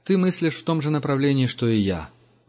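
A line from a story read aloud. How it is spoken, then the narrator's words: Sigh. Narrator (Russian): вздохнул Герман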